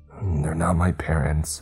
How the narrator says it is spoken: he choked out

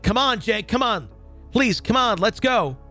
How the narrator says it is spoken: I started yelling

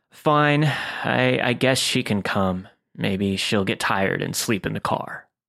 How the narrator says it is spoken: groans and is like

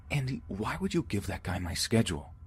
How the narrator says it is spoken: I quietly yelled

